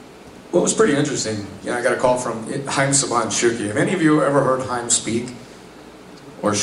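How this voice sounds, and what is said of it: Usual voice. Nothing is said of it.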